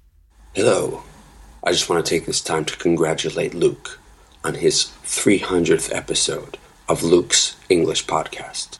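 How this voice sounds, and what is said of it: Whispering quietly. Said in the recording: “whispering in this one ... So Sebastian has to be very quiet. And that's why he's kind of whispering in this message. ... I'm whispering”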